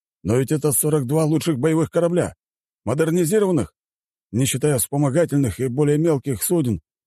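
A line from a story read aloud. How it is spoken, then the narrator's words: Exclamation. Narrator (Russian): воскликнул советник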